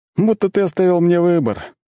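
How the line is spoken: Heavy sigh. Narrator (Russian): тяжело вздохнул Макс

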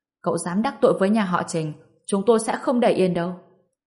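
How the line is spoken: Angry old man. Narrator (Vietnamese): Ông lão tức giận nói

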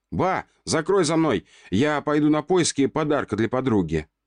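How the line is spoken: Shouted. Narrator (Russian): Выкрикнул

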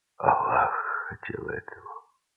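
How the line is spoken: Quiet. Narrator (Russian): сказал он тихо

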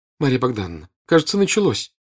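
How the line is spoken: Frightened. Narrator (Russian): сказала, испуганно раскрытыми глазами

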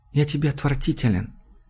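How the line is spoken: Quiet. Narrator (Russian): тихо сказал Джуд

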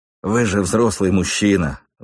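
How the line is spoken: Sigh. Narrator (Russian): вздохнул он

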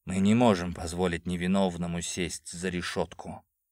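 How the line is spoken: Solemn declaration. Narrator (Russian): торжественно заявил

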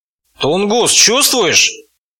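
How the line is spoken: Hoarse bass goblin. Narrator (Russian): Хриплым басом осведомился гоблин

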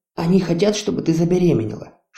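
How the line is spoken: Whisper. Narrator (Russian): шепнул Ю

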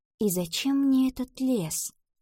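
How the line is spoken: Whisper. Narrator (Russian): прошептала Ива

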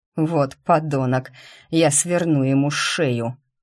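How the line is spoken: Irritated growl. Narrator (Russian): рыкнул он в раздражении

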